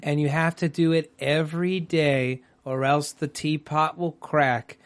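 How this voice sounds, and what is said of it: Slow, calm NPR-style voice. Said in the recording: “And that is the pace of the episode. ... That's your NPR voice.”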